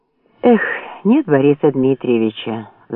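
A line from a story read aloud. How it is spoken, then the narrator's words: Sigh. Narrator (Russian): вздохнул капитан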